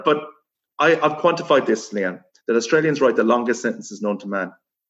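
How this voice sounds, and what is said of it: Irish accent. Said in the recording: “as you can tell from the accent ... I'm not from here originally, from Ireland”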